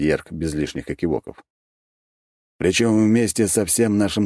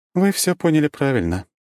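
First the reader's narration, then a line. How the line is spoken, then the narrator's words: Sad smiling tone. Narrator (Russian): печально улыбнулась Круанна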